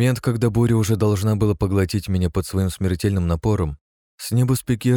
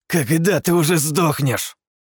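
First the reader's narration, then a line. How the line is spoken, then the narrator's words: Furious inhuman hiss. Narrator (Russian): яростно прошипел Кирк, дыхнув мне в лицо, ведь парень не сам уже мало чем напоминал человека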